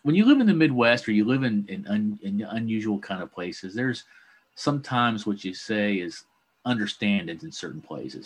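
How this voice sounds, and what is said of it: Regional accent coming through. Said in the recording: “my accent's coming out”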